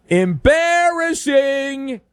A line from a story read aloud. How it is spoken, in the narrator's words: Someone yelled